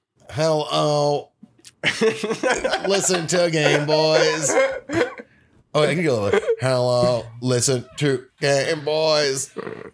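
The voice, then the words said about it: Imitates a synthesized computer voice. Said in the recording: “I'll let you handle that impression ... My friend ... does a really good Stephen Hawking.”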